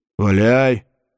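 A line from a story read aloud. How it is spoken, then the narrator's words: Gruff frowning mutter. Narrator (Russian): буркнул нахмуренный Анхис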